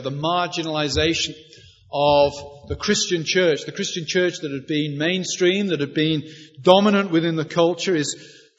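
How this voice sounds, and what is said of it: British accent. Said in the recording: “You can tell from my accent that I didn't grow up on the south side of Philadelphia. I come from Britain, Northern Europe”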